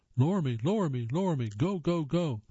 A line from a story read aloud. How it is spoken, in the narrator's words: April urgently yelled